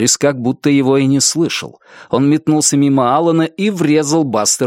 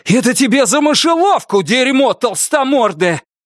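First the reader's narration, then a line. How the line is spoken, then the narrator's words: Shout. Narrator (Russian): крикнул Норрис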